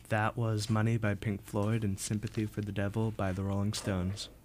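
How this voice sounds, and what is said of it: Nice radio announcer voice. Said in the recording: “You have a really nice radio voice.”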